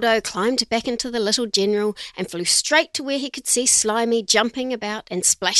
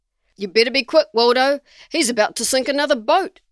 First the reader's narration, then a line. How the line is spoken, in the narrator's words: Noah exclaimed